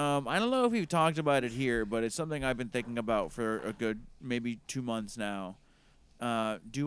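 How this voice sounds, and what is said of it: Usual voice. Nothing is said of it.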